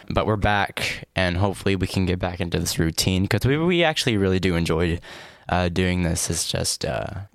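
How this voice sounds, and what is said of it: Slightly deeper, cracking strained voice. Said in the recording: “oh, the voice cracked... I was singing last night, and I might have damaged my voice a little bit... my voice sounds a little deeper than it usually does”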